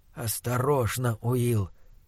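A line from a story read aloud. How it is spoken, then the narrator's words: Whisper. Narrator (Russian): прошептал фон Хельрунг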